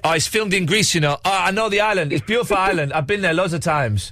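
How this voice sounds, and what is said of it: Put-on Greek accent, not very good. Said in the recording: “I love your Greek accent. ... I know, it's terrible, isn't it?”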